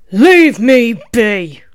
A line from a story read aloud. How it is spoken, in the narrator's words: the rabbit snarled